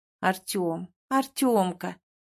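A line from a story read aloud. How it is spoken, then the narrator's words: Tender calling out loud. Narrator (Russian): ласково зову его, пытаясь докричаться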